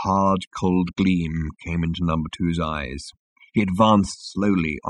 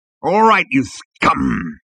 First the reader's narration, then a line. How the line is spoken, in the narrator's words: he growled